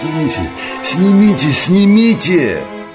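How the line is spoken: Wheezing pained moan. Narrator (Russian): Сипя и корчась простонал

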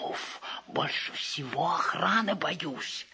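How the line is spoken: Whispered. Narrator (Russian): шепотом

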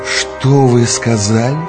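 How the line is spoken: Hissing voice. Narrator (Russian): шипящим голосом спросил Турбин

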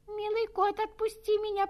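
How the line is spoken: Squeaky mouse voice. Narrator (Russian): пропищала мышка

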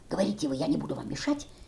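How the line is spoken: Whispered. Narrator (Russian): Бабушка шепнула

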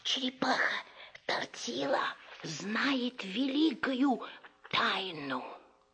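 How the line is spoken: Frogs whispering. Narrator (Russian): Лягушки прошептали

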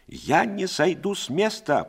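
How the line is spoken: Shrill shout. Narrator (Russian): прокричала визгливо Пряхина

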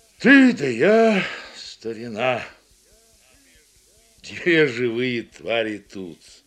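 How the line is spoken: Muffled musing, old man. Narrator (Russian): глухо рассуждает старик

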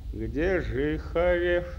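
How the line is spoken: Gloomy question. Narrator (Russian): мрачно спросил Чапаев у Дмитрия

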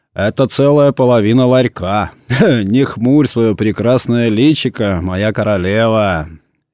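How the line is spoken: Laughing with relish. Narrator (Russian): Виктор Сергеевич засмеялся с особым наслаждением, с каким он смеялся, только беседуя со своей супругой

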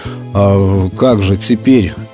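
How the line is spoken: Confused mumble. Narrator (Russian): растерянно пробормотал Пятайкин

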